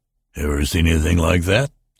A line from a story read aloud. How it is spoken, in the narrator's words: The salesman chuckled